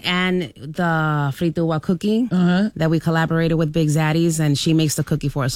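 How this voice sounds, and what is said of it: Accented English, words rolling smoothly. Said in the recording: “y'all's accent, the way you're able to just, you know, the words just rolling off your tongue”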